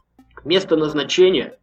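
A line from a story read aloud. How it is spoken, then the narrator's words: Angry. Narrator (Russian): произнес сердито водитель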